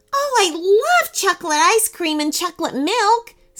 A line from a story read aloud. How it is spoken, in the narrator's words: said Rachel excitedly